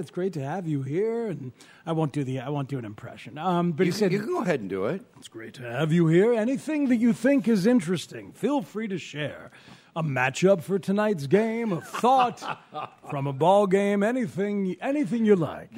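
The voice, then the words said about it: Pat Hughes impression, lacking depth. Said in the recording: “The inflection is really good. The depth needs more work. ... I don't have the depth.”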